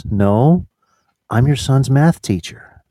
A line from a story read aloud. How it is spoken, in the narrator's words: she calmly says